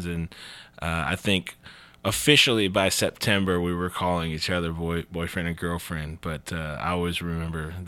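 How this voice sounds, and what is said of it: Heavy twang accent. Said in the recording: “that's a heavy twang... you definitely have adapted”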